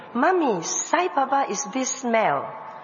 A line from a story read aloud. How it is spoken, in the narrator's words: Ernest exclaimed